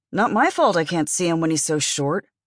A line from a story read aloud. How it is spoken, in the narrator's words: Mateo signed grumblingly